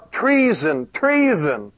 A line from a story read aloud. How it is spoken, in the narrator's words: cried out